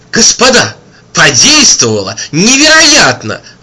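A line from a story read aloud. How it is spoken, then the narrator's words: Exclaimed. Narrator (Russian): воскликнул кто-то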